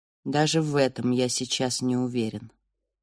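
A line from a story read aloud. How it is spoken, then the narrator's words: Quiet male voice. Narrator (Russian): тихо сказал он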